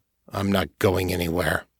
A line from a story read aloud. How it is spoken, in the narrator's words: growled